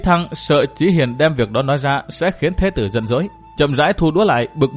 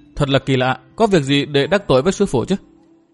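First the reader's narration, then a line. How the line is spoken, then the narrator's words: Feigned casual, thin smile. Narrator (Vietnamese): Chí Thăng cố ý ra vẻ vô sự, cười nhạt nói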